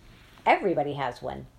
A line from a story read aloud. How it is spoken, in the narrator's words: Nanny answered